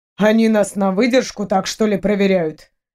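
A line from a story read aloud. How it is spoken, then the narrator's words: Wry grunt. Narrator (Russian): хмыкнул Джамас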